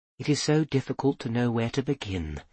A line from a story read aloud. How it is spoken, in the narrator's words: whispering so low he could barely hear